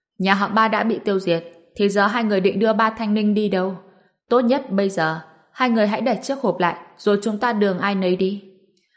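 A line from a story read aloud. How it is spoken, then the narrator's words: Loud burst of laughter. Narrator (Vietnamese): gia chủ nhà họ Dương cười phá lên, nói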